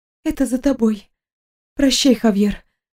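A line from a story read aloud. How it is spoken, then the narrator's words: Breathed out. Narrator (Russian): выдохнула она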